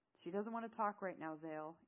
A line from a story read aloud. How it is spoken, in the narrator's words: Eamon said calmly